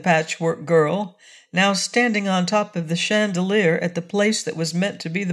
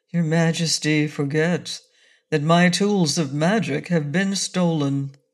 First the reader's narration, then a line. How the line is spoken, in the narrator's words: said the wizard sadly